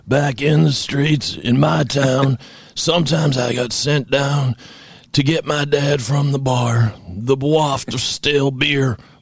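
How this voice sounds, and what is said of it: Imitates another person's voice, Southern accent. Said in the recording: “read in his voice ... What, he doesn't have a Southern accent. What am I doing?”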